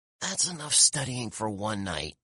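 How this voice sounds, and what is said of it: Croaky whisper. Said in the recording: “I whispered in a croaky voice.”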